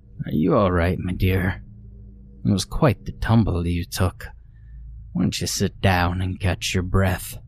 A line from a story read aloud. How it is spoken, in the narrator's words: aunt chuckled low in her throat